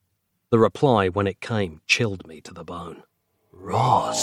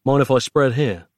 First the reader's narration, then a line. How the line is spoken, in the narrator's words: asked